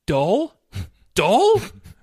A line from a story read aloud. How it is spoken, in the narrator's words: Richard sputtered